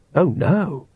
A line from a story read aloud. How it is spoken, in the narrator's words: whispered Oates